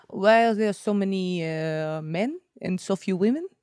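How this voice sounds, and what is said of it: Deliberately bad put-on French accent. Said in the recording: “It's a really bad French accent. ... Not bad.”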